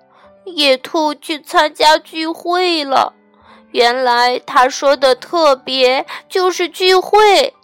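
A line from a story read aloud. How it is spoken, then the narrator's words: Crying. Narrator (Chinese): 他哭道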